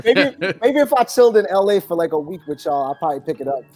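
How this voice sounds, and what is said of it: New York accent. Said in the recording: “you had a cool New York accent”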